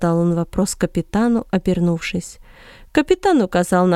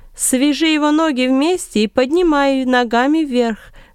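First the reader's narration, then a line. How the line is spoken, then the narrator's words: Loud instructions. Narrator (Russian): громко указывал Варнава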